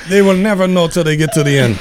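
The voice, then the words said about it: Put-on Hispanic accent drifting French. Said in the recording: “I don't know why my Hispanic guy became French all of a sudden.”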